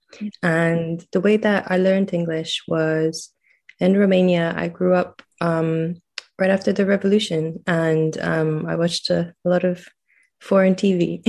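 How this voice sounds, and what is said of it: Mixed accent, sounds quite American. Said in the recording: “my accent is a bit of a mix ... thought I had a very American accent”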